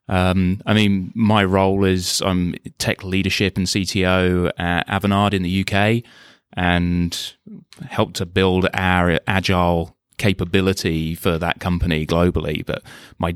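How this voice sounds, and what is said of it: British English accent. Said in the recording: “You can tell from the accent, the journey to the face-to-face in London wasn't quite as long for me”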